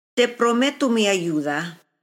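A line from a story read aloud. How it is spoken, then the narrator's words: Plain. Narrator (Spanish): dijo ella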